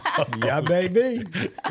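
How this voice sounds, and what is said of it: Cartoon bear character voice. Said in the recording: “That almost sounds like a Yogi Bear ... Do you do impersonations? ... that was pretty impressive.”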